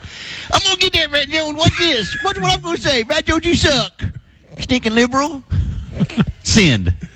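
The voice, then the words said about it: Mocking voice of an online troll. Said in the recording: “I like that impersonation ... That is a good impersonation ... I like when you add voices”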